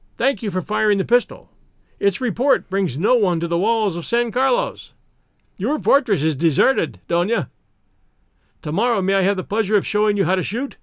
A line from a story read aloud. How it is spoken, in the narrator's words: he shouted